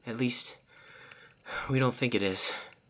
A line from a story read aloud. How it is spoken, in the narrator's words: Tilia sputtered